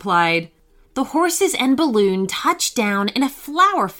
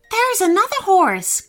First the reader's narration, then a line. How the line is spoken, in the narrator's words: cried Haley